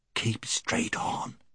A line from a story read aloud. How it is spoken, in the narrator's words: whispered Puddleglum